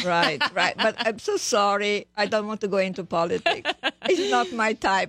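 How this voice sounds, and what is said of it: Eastern European accent. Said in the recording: “Oh, it's a gorgeous accent. You know, it sounds like it's from Eastern Europe”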